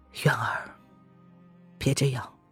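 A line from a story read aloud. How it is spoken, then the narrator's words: Sighing. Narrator (Chinese): 叶轩寒……他叹了一口气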